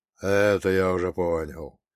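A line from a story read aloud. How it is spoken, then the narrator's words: Grim chuckle. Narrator (Russian): мрачно усмехнулся монах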